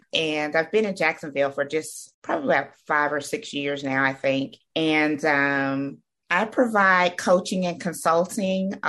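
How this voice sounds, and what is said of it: Slight Southern twang. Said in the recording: “by way of Atlanta, Georgia, where I grew up most of my life, in case you hear the little twang.”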